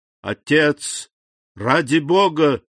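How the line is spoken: Exclaiming. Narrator (Russian): воскликнул Максимилиан

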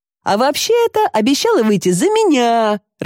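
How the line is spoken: Laughing. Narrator (Russian): рассмеялся Мирон

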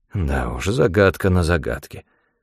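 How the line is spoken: Muttered under breath. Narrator (Russian): пробормотал Бальбо себе под нос

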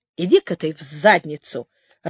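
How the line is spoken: Irritated interruption. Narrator (Russian): раздраженно перебил его Лоренцон

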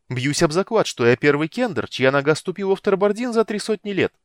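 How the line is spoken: Exclaimed. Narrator (Russian): воскликнул он

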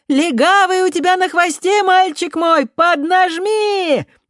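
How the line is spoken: Shrill encouraging shout. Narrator (Russian): пронзительно прокричала какая-то женщина, желавшая подбодрить беглеца

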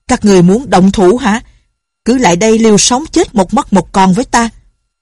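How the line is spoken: Angry roar. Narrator (Vietnamese): Thiên Môn đạo nhân tức giận gầm lên

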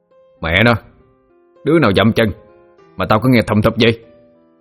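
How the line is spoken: Harsh loud shout. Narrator (Vietnamese): Nó gằn giọng quát lớn

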